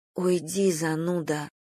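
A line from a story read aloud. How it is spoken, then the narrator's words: Muttered. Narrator (Russian): пробормотала Надя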